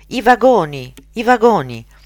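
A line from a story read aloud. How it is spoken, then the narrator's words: Hopeful cry. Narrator (Italian): un grido di speranza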